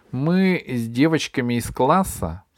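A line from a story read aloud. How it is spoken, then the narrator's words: Plain. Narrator (Russian): сказала Габи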